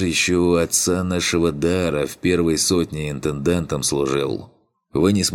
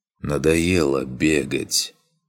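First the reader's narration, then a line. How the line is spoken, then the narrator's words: Weary. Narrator (Russian): Устало демон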